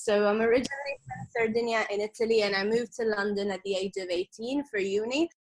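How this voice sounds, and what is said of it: Blended, hard-to-place accent. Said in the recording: “my accent is just this blend of weird things that it doesn't know what it is ... Beautiful blended accent.”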